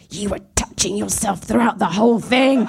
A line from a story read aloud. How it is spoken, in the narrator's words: she hissed at me